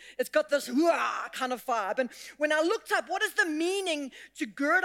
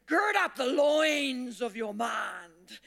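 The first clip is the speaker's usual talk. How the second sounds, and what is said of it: Put-on Scottish accent. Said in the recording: “put on a Scottish accent”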